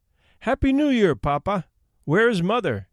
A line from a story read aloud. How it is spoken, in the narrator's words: we cried